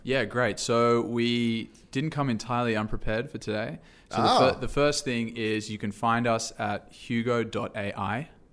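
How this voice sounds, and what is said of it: Australian accent. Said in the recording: “a charming Australian accent”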